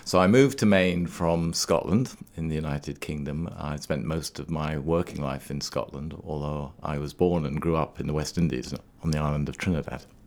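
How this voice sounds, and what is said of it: Non-local, non-Maine accent. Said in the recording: “you don't have the accent of a Mainer. You are from elsewhere.”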